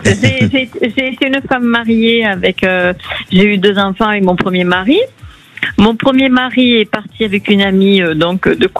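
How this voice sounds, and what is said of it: Slight Marseille French accent. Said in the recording (French): “Un petit accent de Marseille.”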